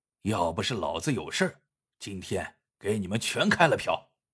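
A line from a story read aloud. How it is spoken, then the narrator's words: Muttering. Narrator (Chinese): 黑七嘀咕着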